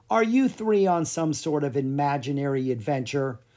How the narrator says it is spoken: The children sighed because the queen was not taking them seriously

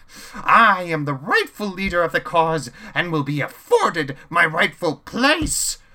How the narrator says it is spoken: Chaos exclaimed

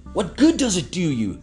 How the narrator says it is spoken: He cried

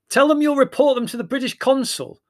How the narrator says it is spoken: suggested Larry, raising his voice above the noise

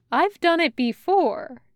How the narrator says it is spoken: Georgie says

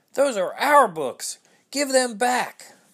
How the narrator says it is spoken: the children yelled

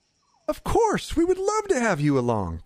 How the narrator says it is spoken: Krindar exclaimed

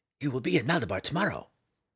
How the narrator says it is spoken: whispered in the mountain man's ear

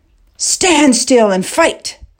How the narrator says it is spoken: the king roared

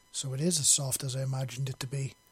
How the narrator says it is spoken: he said softly with a note of embarrassment bleeding into his voice

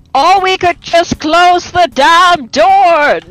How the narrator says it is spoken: Neris yells from up top

